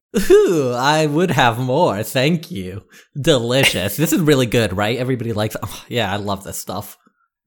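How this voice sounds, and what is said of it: Impression of an impressed restaurant diner. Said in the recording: “my impression of a white person seeing the exact same food at an upscale fusion restaurant”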